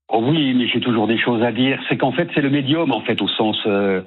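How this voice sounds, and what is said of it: Slight southern French accent. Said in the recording (French): “vous vivez dans le sud ou dans le sud-ouest? Parce qu'il y a un petit accent”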